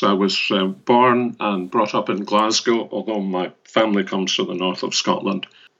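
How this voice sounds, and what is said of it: Scottish accent. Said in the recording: “we can probably already tell from the accent, I imagine that you were born and bred in Scotland”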